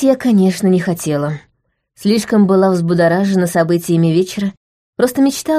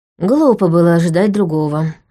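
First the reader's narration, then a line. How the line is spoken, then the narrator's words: Sigh. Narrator (Russian): вздохнула я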